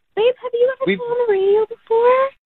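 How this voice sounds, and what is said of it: Cute baby voice. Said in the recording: “I hear your cute baby voice. Don't talk to him that way.”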